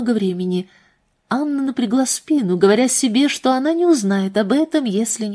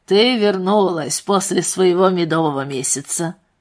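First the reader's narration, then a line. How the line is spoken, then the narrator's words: Laughing. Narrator (Russian): Анна рассмеялась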